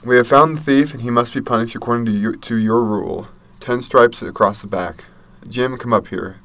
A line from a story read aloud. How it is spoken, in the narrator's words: the teacher said